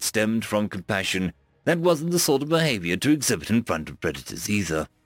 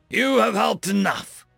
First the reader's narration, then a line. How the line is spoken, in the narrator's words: Cam spat